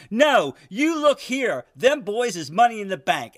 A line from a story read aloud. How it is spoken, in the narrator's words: Alan roared